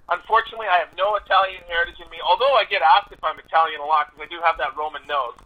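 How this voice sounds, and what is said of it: Canadian accent. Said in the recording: “you're from Canada ... I love your accent, man. I love your accent.”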